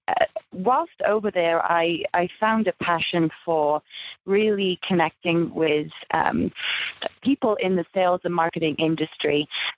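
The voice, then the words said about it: British accent. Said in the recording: “as you can probably tell from my accent, I'm from the United Kingdom.”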